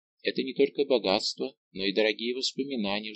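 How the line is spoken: Wistful sigh, queen. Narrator (Russian): вздохнула королева, невольно обратившись мыслью к прошлому

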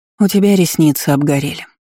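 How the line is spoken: Sighing. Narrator (Russian): вздохнула Дисси

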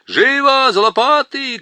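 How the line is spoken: Group shouting. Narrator (Russian): крикнули гномы

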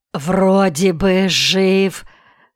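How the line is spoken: Hoarse croaking baker. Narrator (Russian): прохрипел пекарь

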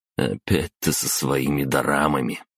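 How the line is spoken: Heavy sigh. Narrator (Russian): тяжело вздохнул я

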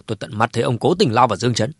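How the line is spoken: Angry, firm speech. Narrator (Vietnamese): Cố Thái Sơ tức giận ra mặt, vẫn kiên định nói

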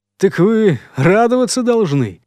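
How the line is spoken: Cheerful snort. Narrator (Russian): бодро хмыкнул ей в ответ следопыт

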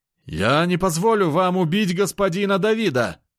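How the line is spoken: Shouted outburst. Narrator (Russian): выкрикнул тот стрелок

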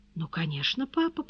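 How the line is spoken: Soothing tone. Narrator (Russian): повторила Тони умиротворяющим тоном, к которому она обычно прибегала, когда с ней говорили серьезно

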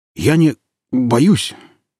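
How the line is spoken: Hesitant stammering medic. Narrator (Russian): неуверенно, немного заикаясь, сказал фельдшер

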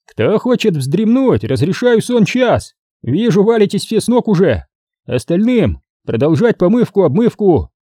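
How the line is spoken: Bellowing. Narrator (Russian): гаркнул Холод

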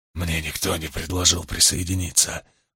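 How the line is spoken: Whispered. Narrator (Russian): прошептал Ристион

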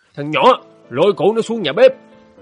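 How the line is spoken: Furious theatrical bellow. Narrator (Vietnamese): Nghị Quế đùng đùng, hắn hét lên như ông đại tướng trong rạp tuồng

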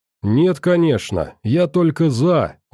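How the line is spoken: Exclamation. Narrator (Russian): воскликнула

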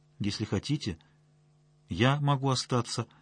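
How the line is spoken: Timid. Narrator (Russian): робко сказала Марина

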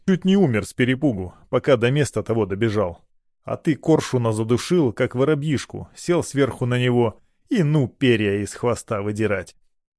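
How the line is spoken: Snorted. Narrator (Russian): Варгин фыркнул

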